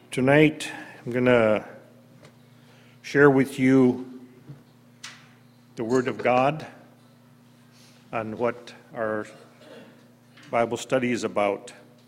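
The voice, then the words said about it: Hoarse, strained voice. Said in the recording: “Have to excuse my voice. ... I kind of lost it last night, I think.”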